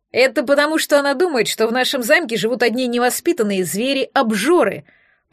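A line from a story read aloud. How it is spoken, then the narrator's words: Grumbling hostess. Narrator (Russian): проворчала хозяйка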